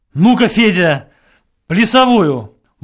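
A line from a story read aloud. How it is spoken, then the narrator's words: Exclamation. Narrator (Russian): воскликнул Родилов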